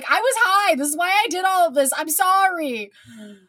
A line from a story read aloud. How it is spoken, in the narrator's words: he just keeps screaming